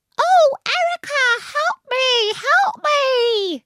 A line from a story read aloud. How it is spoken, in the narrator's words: in a squeaky girl's voice